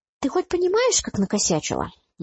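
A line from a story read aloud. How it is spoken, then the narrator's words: Snide question. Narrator (Russian): ехидно поинтересовался Алекс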